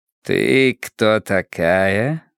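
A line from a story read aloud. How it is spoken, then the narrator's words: Soft purring question. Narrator (Russian): спросил он без агрессии, как будто мурлыка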